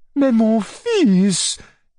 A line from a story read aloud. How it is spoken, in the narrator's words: cried Madame la Générale in alarm